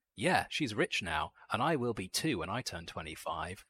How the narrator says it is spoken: she exclaimed in her boisterous, open way

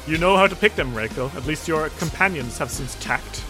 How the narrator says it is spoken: Genhara kind of chuckles and says

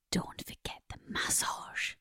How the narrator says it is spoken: whispers

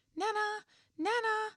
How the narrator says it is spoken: cried

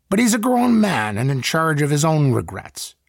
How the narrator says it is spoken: said the farmer

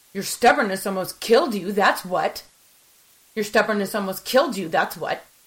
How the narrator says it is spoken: snapped, my anger rising

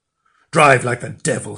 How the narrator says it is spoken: he shouted

